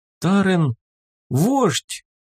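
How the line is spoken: Hesitant voice from crowd. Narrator (Russian): из толпы неуверенно прозвучало

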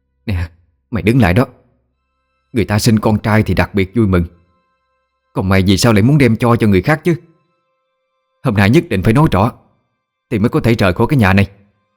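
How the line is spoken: Shouting mother-in-law. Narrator (Vietnamese): Mẹ vợ la lên

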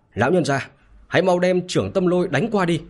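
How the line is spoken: Loud shout. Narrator (Vietnamese): Lâm Kiểu Thúc bèn quát lớn với cả bà lão

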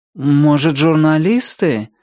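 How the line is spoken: Uncertain suggestion. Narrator (Russian): неуверенно предположил он

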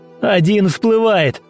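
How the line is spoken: Shouted. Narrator (Russian): кричал Демьян капитану

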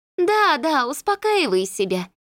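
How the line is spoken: Snide, from behind. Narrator (Russian): ехидно отзывается Данка за моим плечом

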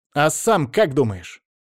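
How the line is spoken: Snapping retort. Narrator (Russian): огрызнулась Ферри

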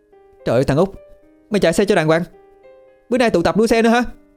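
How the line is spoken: Sudden cry. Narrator (Vietnamese): Cô bất ngờ la lên

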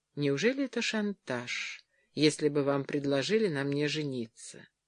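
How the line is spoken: Quiet question. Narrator (Russian): тихо спросила

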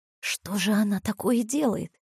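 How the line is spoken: Whispered question. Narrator (Russian): шепотом осведомилась Мариша

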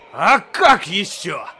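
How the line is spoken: Triumphant growl. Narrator (Russian): победоносно прорычал доктор

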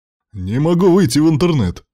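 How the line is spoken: Exclaiming. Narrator (Russian): воскликнул пассажир бизнес-класса

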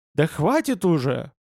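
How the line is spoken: Irritated exclamation. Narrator (Russian): воскликнул Шеннон, раздраженно

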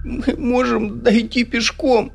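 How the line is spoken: Sobbing. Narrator (Russian): всхлипывал Джерри

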